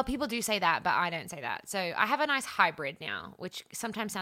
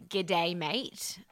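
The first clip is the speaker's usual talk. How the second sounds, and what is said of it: Strong Australian accent. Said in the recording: “Whenever I talk to my family, it comes out really strong ... sounds a bit more British than Australian”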